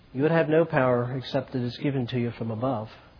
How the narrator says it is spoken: Jesus calmly answered

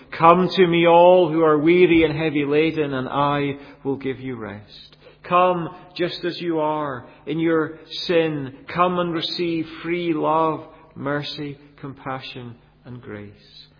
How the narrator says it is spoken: Jesus had cried out to this same Jerusalem

